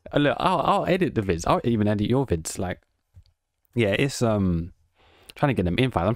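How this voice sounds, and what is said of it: British accent. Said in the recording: “I'm just from England ... actually have a British accent”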